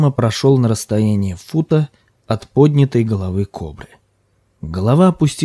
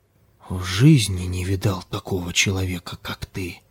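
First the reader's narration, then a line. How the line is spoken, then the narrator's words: Stunned whisper. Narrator (Russian): Прошептал ошеломленный Ким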